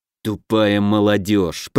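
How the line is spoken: Through gritted teeth. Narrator (Russian): процедил сквозь зубы Самди

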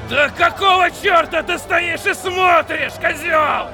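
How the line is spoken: Bark, spraying spit. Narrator (Russian): гаркнул шериф, брызнув фонтаном слюны

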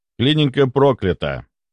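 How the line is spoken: Even tone. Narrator (Russian): сказал я ровным тоном

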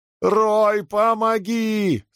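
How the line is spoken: Shouted. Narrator (Russian): снова закричал Брэнсон

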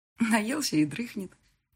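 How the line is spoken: Quiet laughter. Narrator (Russian): тихо смеялась

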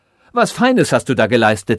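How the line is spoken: Called out. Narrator (German): rief

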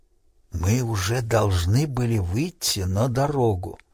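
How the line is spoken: Whispered. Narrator (Russian): прошептал

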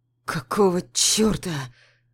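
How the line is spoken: Wounded man rasping. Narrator (Russian): хрипит раненый

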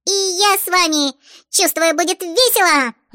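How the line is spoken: Joyful squeak, little girl. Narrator (Russian): Радостно пропищала рыженькая с хвостиками

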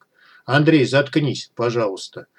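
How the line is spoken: Weary. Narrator (Russian): устало произнес Артур

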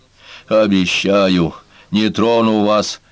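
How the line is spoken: Breathy exhale. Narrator (Russian): выдохнул он

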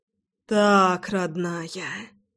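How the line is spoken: Groaning. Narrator (Russian): Простонал я

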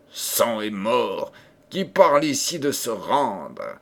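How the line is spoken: Terrible, fearsome voice. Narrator (French): reprit le prince Azor d'une voix terrible

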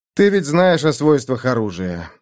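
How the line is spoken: Sighed. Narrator (Russian): вздохнул я

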